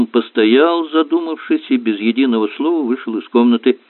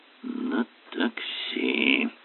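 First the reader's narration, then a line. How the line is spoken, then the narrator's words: Muttering. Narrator (Russian): пробормотал Воэн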